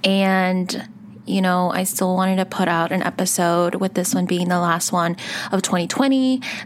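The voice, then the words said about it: Muffled, congested voice. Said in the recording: “my voice is a little muffled ... I'm getting over a cold”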